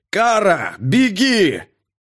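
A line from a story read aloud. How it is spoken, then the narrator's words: Shouting again. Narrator (Russian): снова крикнул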